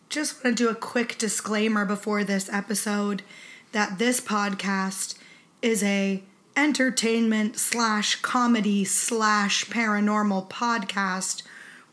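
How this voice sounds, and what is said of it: Sick-sounding voice. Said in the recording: “I'm sick, so sorry about my voice.”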